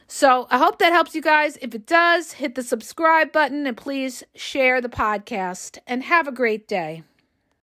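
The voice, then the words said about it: Voice going, worn out. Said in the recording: “I'm losing my voice because I've been going all morning”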